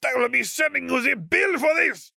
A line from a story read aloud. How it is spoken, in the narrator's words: Om roared from his front door